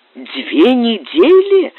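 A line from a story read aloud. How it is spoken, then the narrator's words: Astonished exclamation. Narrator (Russian): изумленно воскликнул Стефан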